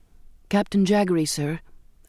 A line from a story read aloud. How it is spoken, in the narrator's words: I said